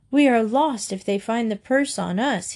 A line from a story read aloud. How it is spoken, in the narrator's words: cried